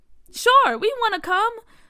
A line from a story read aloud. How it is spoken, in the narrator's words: Bria said excitedly